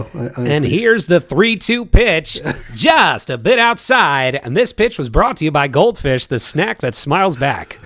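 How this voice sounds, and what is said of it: Corny baseball radio announcer voice. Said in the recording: “I always wanted to be like a baseball radio announcer. ... like I have the corny voice when I put it on”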